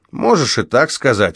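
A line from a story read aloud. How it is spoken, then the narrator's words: Snort. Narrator (Russian): фыркнул Кейси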